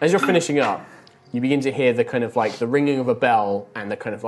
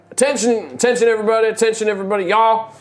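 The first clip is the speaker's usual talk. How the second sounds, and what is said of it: Town crier voice, Southern-style accent. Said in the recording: “hear ye, town crier kind of like voice ... But it'd be Savonian accent”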